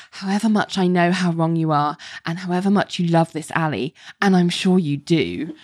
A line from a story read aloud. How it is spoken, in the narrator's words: she sighs and she says